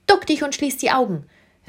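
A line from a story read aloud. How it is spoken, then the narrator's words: Excited call. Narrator (German): rief der König seiner kleinen Gefährtin aufgeregt zu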